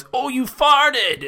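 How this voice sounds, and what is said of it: Put-on stereotypical Asian accent. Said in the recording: “a stereotypical Asian woman voice ... That's the extent of any accent I'm gonna do.”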